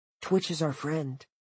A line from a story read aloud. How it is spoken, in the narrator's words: Cole said quietly